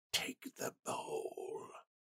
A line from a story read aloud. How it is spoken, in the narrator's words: a voice inside Randall's head whispered